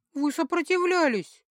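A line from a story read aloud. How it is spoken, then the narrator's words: Offended, irritated. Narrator (Russian): обиженно сообщила я ему, оформив, наконец, в слова свое недовольство и раздражение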